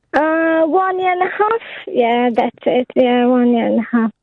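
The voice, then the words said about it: Romanian accent in English. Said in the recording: “I can't place your accent. I want to say Norwegian, but it isn't Norwegian ... Romanian”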